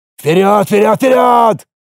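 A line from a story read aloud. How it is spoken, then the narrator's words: Barked command. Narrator (Russian): рявкнул командир десанта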